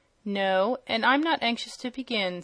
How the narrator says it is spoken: said Eureka

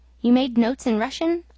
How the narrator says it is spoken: I asked

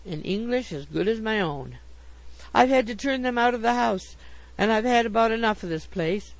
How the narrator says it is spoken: cried

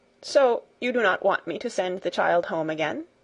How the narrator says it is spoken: he asked

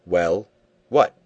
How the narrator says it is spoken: said he, roughly

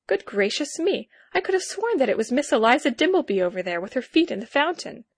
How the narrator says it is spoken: interrupted myself to exclaim

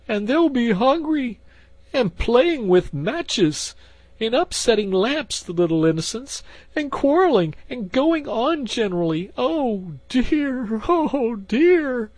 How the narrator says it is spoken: sobbed Toad

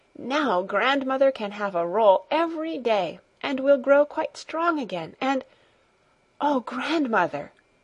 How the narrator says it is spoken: she suddenly exclaimed, with an increase of jubilation in her voice

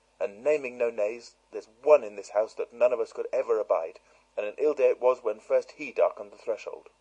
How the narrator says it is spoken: said Dorcas fiercely

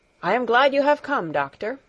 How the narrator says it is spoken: exclaimed Herr Sesemann

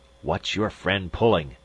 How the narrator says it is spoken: he rasped

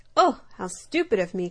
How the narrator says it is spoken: cried the dormouse

